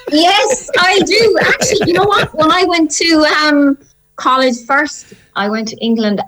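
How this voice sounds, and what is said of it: Irish accent. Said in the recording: “my Irish accent ... I'm Irish after all”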